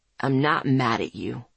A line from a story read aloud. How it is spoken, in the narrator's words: he growled